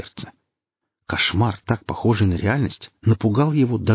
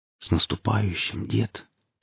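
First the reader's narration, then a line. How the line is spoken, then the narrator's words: Quiet. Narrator (Russian): тихо сказал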